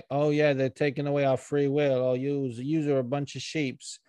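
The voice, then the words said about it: Put-on mocking dialect. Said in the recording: “I don't know why I'm doing this fucking dialect”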